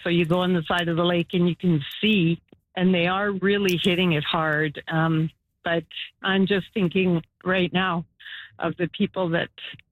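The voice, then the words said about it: Emotional, choked-up voice. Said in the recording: “I'm sorry, I'm getting emotional.”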